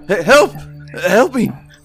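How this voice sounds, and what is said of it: Yelling, panicked cries for help. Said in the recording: “You can keep yelling”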